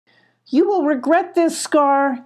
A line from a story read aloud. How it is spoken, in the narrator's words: yelled Molly